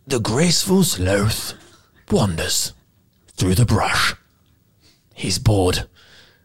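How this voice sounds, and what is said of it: Whispered nature-documentary narrator impression. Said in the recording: “Can you do a David Attenborough voice? ... do a bad impression ... It's just whispering. ... You've got to leave weird pauses”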